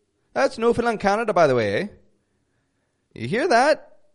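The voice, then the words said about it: Put-on Newfoundland accent. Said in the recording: “people in Newfoundland talk like this... It's kind of inspired by the Irish accent a little bit”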